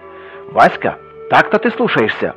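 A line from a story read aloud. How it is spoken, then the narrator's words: Sharp shout. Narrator (Russian): прикрикнул вслед ему отец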